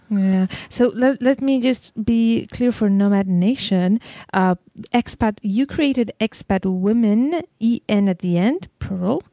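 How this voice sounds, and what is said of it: Speaks English with an accent. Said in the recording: “I'm sorry if my accent does not allow to make the difference.”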